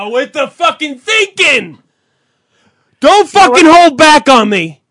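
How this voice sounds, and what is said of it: Angry yelling. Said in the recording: “was yelling... I'm going to keep yelling.”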